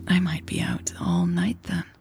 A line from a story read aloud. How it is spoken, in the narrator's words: she whispered